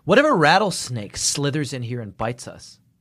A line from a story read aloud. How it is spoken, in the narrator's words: asked Haley